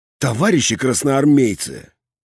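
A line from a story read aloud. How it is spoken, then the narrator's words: Quiet. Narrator (Russian): сказал я негромко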